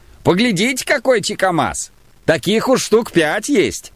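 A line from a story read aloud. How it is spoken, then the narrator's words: Shouting. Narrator (Russian): кричал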